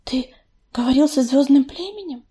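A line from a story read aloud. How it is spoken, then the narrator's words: Quiet question. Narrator (Russian): тихо спросила листвечка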